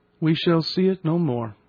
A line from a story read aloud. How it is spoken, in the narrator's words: I said with a sigh